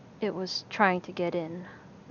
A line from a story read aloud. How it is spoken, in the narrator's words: Alan muttered